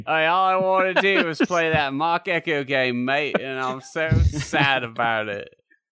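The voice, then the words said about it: Put-on Australian accent. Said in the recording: “it's not easy doing an Australian accent, as we've seen before. It's a difficult thing”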